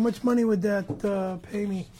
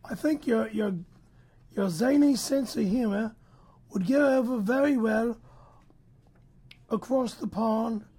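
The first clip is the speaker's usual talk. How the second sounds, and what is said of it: Put-on British accent. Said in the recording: “could you have him read this with a British accent?”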